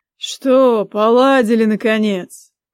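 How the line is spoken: Pleased snort. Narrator (Russian): хмыкнул, вполне довольный нашим видом

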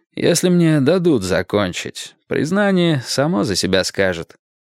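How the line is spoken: Tired. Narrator (Russian): устало сказал Перри Мейсон

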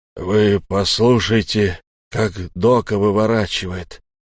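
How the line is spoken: Hoarse rumbling wheeze. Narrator (Russian): прохрипел гром

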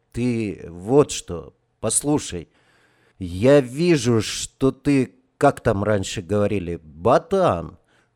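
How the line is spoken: Unexpectedly soft. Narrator (Russian): Он неожиданно мягко продолжал

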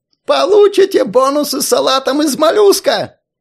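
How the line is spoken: Hysterical yelling. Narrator (Russian): Истерично орал директор

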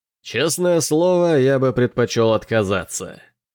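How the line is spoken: Laughing. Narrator (Russian): рассмеялся Келин

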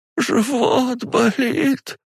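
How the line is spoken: Moaning. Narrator (Russian): простонала Зинаида Ивановна

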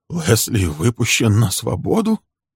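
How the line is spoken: Asked hoarsely. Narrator (Russian): хрипло спросил Фрэнк

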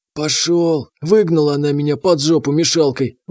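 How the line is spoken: Drunkard's sigh. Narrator (Russian): вздохнул алкаш

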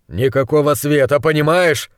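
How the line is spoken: Growl. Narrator (Russian): Рыкнул

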